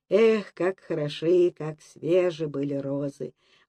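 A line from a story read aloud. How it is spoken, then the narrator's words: Heartfelt sigh. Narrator (Russian): выдохнул Микола из души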